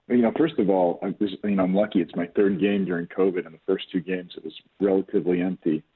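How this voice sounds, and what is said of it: Hoarse voice from yelling. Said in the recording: “Sorry if my voice is hoarse. ... I was yelling the entire game.”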